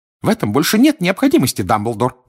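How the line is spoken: Shrill squeal. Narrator (Russian): взвизгнула она

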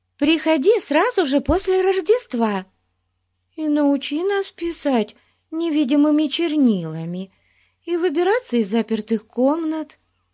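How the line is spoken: Pleading. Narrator (Russian): взмолилась Бетси

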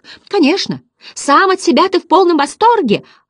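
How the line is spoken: Children shouting in chorus. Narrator (Russian): орали озорники хором

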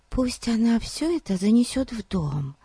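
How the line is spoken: Whisper. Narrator (Russian): прошептала Дейзи

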